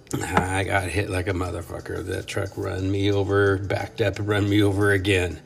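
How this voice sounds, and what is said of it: Sick-sounding voice. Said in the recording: “I've still got a little bit of a, you can probably hear it in my voice. I got a little bit of the sickness in me still. Still have a little bit of a cough.”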